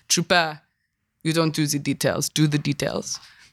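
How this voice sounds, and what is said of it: Imitates another person's accented voice. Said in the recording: “his really beautiful accented voice ... That's a terrible impression”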